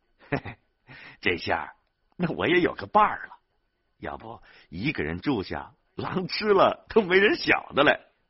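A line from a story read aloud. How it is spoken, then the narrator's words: Old man, joking. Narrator (Chinese): 饲养员田万江老汉还开玩笑的说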